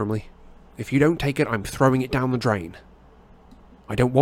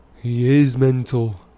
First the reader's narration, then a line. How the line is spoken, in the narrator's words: Fred said in an almost awed voice